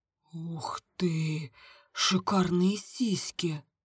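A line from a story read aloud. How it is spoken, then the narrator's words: Breathed out. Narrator (Russian): выдохнул Миша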